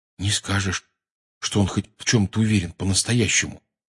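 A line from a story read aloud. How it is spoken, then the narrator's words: Quietly. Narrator (Russian): тихонько сказал Рон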